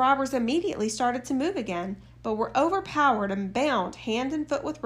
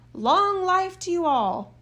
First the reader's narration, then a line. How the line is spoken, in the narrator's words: cried